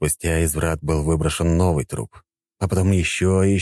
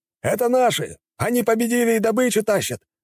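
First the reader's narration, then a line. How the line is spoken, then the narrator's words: Shouted. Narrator (Russian): прокричал кто-то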